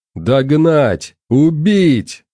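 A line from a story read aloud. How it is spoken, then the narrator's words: Roared. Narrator (Russian): взревел Владислав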